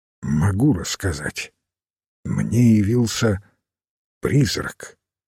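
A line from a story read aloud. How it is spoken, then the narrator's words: Quiet voice. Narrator (Russian): тихим голосом произнес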